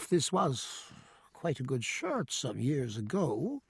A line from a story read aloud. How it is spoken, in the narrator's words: he murmured